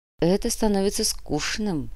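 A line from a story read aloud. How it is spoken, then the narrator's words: Muttered. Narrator (Russian): пробормотала Анна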